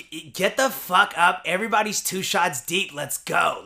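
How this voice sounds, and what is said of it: Imitates another person's voice. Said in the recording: “Is that my voice? ... you're impersonating me, aren't you?”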